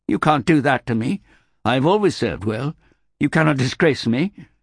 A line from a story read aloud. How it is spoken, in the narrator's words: said the young man, his voice rising